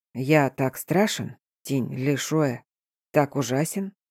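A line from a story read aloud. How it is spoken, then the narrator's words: Barely audible rustling whisper. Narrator (Russian): Едва слышно, словно шелест камыша, пронеслось по покоям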